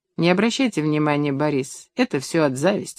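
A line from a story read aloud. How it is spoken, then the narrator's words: Plain. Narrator (Russian): сказала Лариса Михайловна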